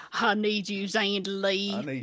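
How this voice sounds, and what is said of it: Exaggerated Southern American accent. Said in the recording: “it sounds so good with a big southern accent.”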